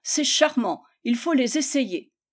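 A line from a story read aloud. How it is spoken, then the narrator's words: Voices shouting. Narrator (French): cria-t-on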